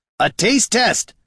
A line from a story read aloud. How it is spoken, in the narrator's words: shouted Gorm